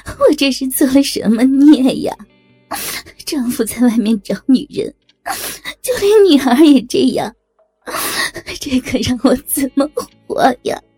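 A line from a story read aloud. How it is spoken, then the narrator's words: Furious pressing question. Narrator (Chinese): 爸爸则气急败坏的追问小林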